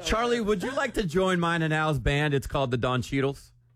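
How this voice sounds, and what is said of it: Put-on Wisconsin accent. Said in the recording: “Isn't his accent so cool? Is it like a Wisconsin accent? ... That was a good impression right there.”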